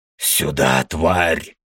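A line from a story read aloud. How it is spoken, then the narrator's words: Demon's roar. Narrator (Russian): взревел демон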